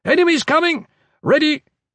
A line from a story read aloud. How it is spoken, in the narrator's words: The pale Hrothgari shouted